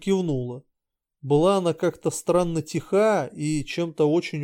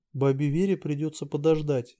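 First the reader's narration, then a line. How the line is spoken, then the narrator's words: Sighing. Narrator (Russian): вздохнула Тель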